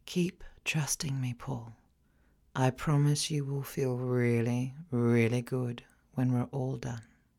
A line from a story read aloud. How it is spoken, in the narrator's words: whisper